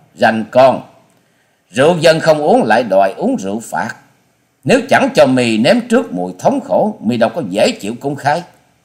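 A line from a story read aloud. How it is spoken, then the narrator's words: Angry woman shouting. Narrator (Vietnamese): Nữ lang bịt mặt giận dữ quát to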